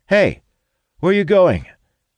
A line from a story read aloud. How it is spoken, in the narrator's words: Talon exclaims